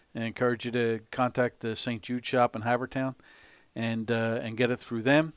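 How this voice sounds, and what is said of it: Philadelphia-area regional accent. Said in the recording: “I'm detecting a Delaware County accent ... it's good to hear the accent again, or at least near enough”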